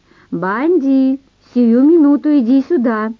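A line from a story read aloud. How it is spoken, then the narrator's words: Thunderous command. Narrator (Russian): проговорила Наташка и громовым голосом приказала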